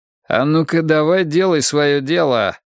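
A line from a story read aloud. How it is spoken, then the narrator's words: Rude interruption. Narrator (Russian): грубо оборвал его Лэнгборн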